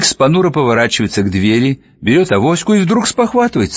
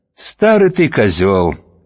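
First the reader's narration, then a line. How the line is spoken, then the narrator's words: Almost affectionate. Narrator (Russian): отзывается она почти ласково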